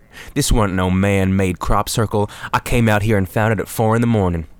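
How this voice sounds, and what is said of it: Rural hick accent. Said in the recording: “Why does this guy have a... they don't have any accent ... He's a random fucking hick”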